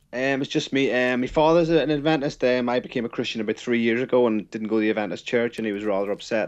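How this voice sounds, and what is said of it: Irish accent. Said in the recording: “from Ireland ... You got a cool accent, man.”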